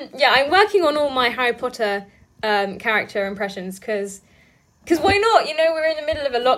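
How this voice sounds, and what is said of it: Usual voice. Nothing is said of it.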